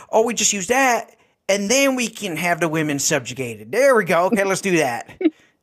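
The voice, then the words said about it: Exaggerated put-on accent. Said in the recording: “slightly over the top accent”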